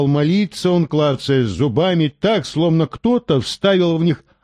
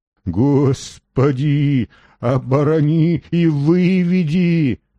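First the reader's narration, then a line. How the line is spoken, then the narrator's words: Trembling, pained moaning. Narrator (Russian): трясся доктор, стоная, как от боли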